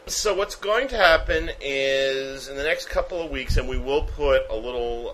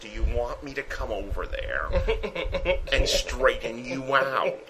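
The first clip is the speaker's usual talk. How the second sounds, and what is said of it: Joker-style character voice. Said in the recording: “did my Joker voice”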